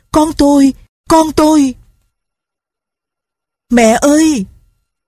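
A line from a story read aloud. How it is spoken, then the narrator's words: Crying out. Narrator (Vietnamese): Mụ kêu lên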